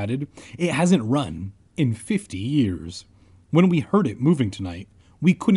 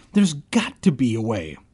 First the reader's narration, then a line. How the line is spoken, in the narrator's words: I cried